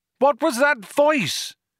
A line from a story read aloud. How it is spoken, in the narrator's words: shouted Arthur